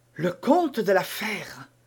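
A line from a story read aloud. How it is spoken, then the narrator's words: Frightened murmur. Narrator (French): murmura Milady en pâlissant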